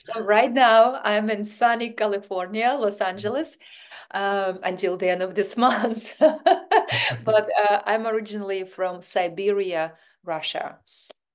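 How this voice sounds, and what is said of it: Foreign-accented English. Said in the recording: “You've got this beautiful accent.”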